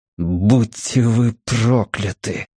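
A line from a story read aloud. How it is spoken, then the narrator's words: Through clenched teeth. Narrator (Russian): процедил он сквозь плотно стиснутые челюсти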